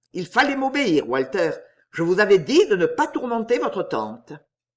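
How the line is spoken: Vexed. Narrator (French): Elle se souvint qu'il avait dit au petit Walter, d'un ton vexé

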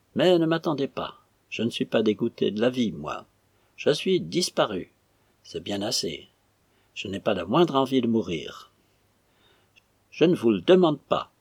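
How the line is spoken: Extremely stern officer's tone. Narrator (French): dit le lieutenant d'un ton extrêmement sévère, et que Pérol aurait appelé un ton de porteur d'épaulette

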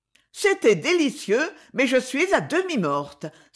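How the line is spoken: Exclaiming. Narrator (French): s'écria Pauline

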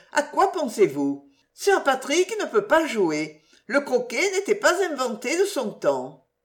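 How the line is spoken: Exclaiming. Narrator (French): s'écria Blanche

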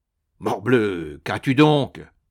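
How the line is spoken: Astonished exclamation. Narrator (French): s'écriait Mandrin, fort étonné par l'attitude de son jeune compagnon

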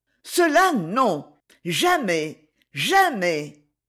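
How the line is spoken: Loud outcry. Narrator (French): La seule imagination de ce baiser fut intolérable physiquement à l'honnête femme, au point qu'elle s'écria, et à voix haute

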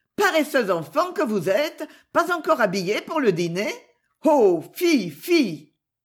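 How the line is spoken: Cheerfully affectionate. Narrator (French): Ces paroles étaient aussi gaiement affectueuses

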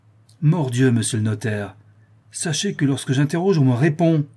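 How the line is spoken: Exclaiming. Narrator (French): s'écria M

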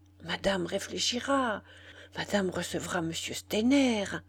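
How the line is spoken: Grave, annoyed murmur. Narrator (French): murmura Zoé d'un air grave, fâchée de voir sa maîtresse sur le point de faire encore une bêtise

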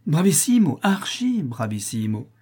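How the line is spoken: Shout. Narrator (French): cria M

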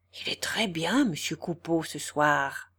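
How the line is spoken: Whispered in ear. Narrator (French): murmura Clémence à l'oreille de Boche

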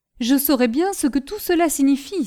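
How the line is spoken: Exclaiming. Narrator (French): s'écria Jean

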